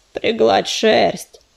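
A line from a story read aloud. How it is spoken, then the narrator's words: Creature grumbling nearby. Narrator (Russian): проворчал лежавший рядом долголап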